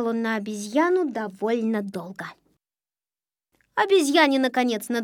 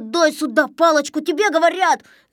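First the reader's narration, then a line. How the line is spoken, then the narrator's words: Yell. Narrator (Russian): заорал Незнайка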